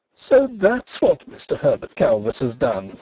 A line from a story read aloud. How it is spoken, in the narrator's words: she exclaimed, amid the embers of her mirth